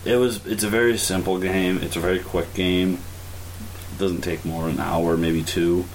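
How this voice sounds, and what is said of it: Sick-sounding voice. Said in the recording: “I apologize for my voice. I'm extremely sick.”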